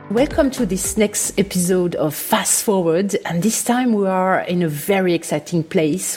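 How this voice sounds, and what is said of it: French accent. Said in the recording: “hosting this podcast with a French accent”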